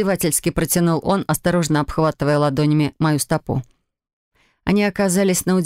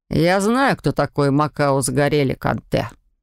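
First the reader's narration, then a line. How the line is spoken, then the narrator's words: Dry. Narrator (Russian): сухо отозвался Лоран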